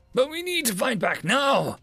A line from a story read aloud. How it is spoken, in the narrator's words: shouted the elites